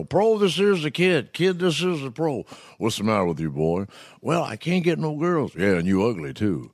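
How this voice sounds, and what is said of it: Imitates another person's voice. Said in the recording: “And then Bill Cosby, I did all the football stuff”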